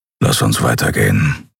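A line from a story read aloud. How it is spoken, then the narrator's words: Grumbling. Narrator (German): brummte er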